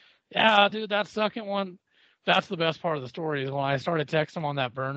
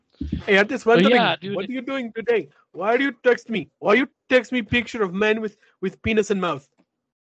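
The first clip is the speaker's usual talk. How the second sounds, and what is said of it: Put-on foreign accent. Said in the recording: “I don't know why I'm giving this dude an accent.”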